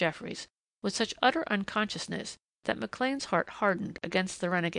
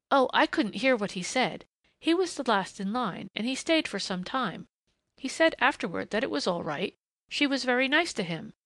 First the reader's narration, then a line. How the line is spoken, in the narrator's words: said Jinny earnestly